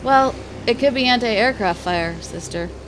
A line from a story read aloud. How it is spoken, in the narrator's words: He replied dryly